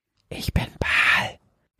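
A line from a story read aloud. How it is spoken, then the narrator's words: Sudden whisper in ear. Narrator (German): flüsterte ihr es plötzlich von links ins Ohr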